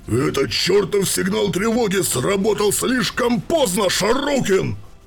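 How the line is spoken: Roaring. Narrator (Russian): проревел Ульрах Брантон

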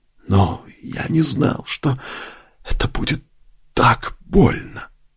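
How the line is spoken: Whispering. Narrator (Russian): прошептал он

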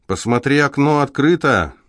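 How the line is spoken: Shout. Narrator (Russian): крикнул Рон Пуласки

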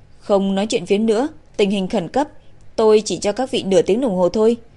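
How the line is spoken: Stern. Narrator (Vietnamese): Giáo sư Lương nghiêm nghị nói

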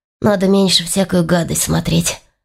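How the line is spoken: Muttered again. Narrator (Russian): снова пробормотал Игорь

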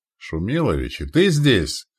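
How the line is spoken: Joyful exclamation. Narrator (Russian): воскликнул обрадованно комендант

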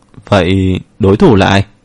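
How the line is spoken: Slightly hesitant. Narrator (Vietnamese): Mạc Kính Nam hơi ngập ngừng

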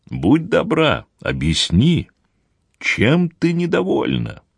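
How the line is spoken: Heartfelt, earnest. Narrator (Russian): спросил Гранд-Корт самым проникновенным голосом, на какой был способен

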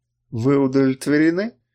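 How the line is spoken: Sarcastic question. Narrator (Russian): язвительно поинтересовалась она

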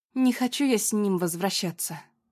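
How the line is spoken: Tired. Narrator (Russian): устало сказала Аня

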